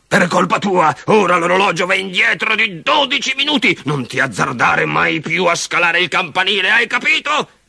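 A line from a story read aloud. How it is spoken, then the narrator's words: Father roaring. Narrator (Italian): ruggiva il babbo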